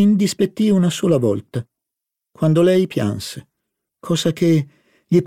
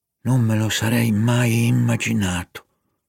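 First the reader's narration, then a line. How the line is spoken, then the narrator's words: Sighed reply. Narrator (Italian): sospirò Morel in risposta a Madame Verdurin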